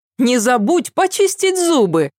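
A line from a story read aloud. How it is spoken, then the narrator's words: Shouted. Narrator (Russian): крикнула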